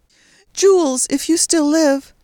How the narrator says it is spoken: She cried desperately

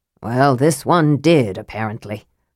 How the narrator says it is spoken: Flint said grimly

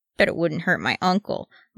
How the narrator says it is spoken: mumbled Gimmage

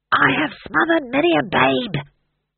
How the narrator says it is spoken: he hissed

